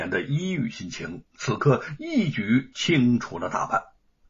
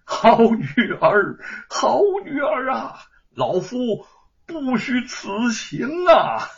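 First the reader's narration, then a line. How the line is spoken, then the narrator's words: Joyful hearty laughter. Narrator (Chinese): 蔡昂高兴的拉起玉凤，仰天大笑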